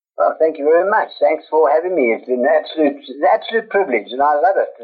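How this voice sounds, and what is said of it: South African accent. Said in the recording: “You're our very first South African on the show, so we're kind of a big fan of your accent”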